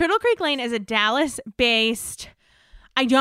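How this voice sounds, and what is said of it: Usual voice. Nothing is said of it.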